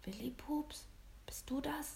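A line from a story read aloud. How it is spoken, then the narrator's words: Soft trembling whisper. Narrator (German): flüsterte eine leise, zittrige Stimme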